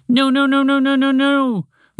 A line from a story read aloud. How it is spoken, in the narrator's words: Montgomery the Mouse sputtered